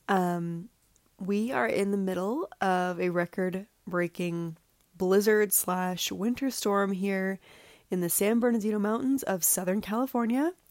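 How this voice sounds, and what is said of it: Voice affected by a cold. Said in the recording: “excuse my voice a bit for this episode. I am just getting over a cold”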